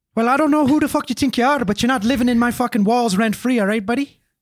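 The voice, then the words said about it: Irish accent, Colin Farrell impression. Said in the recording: “That's a good Irish accent. ... I thought we were streaming with Colin Farrell. ... that's my Colin Farrell, obviously.”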